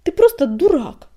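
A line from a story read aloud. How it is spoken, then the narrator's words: Snapped. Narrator (Russian): огрызнулся Огнегриф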